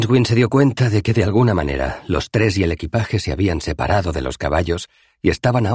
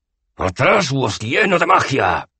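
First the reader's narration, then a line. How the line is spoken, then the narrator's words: Roar. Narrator (Spanish): rugió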